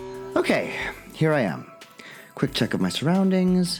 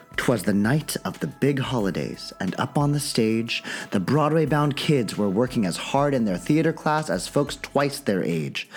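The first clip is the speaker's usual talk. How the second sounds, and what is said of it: Storybook narrator voice. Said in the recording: “Warming up the old narrator voice.”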